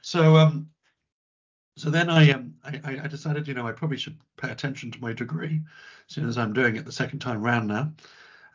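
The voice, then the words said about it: Husky voice. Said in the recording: “my voice is not normally this husky. I have literally just recovered from a really bad cough. That's why you're getting the sexy husky voice today.”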